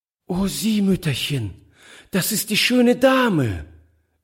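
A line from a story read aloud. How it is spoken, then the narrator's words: Delighted cry. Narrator (German): rief sie voll Entzücken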